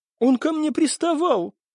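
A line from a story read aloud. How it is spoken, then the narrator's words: Indignant declaration. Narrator (Russian): возмущенно заявила певичка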